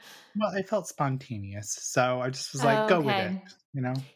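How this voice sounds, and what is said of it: Usual voice. Nothing is said of it.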